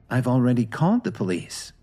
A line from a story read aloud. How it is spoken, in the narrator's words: Lily said softly